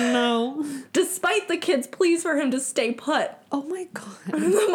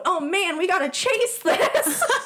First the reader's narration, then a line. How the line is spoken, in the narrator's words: their father exclaims